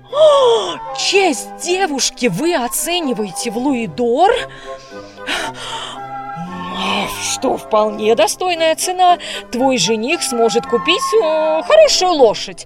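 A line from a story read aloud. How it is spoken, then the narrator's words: Pleased laughing baron. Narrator (Russian): засмеялся барон, очень довольный своей шуткой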